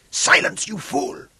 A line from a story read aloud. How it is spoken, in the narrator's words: Camacho snarled at him